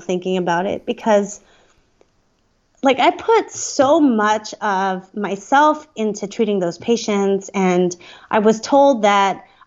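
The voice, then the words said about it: Emotional, choked-up voice. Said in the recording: “I'm getting emotional”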